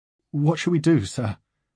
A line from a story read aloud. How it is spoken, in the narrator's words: His voice quivers